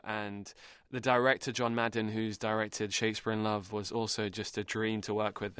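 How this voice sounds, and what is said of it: British English accent. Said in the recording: “I'm from the UK. Yeah. That's the accent.”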